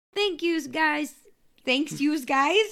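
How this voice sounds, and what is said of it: Put-on New York accent. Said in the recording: “we're just doing the accents today ... Was that like New York?”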